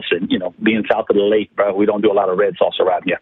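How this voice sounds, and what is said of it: Strong local Louisiana accent. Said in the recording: “That little accent you just threw in there. That fake voice you just threw in there. ... We have accents down there.”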